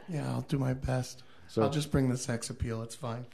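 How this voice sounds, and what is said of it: Sick, rough voice. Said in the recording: “Sorry about my voice. Got a little bit of the pneumonia going on.”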